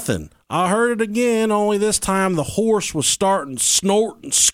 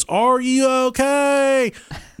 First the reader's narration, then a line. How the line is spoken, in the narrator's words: called out